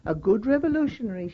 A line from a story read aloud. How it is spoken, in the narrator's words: said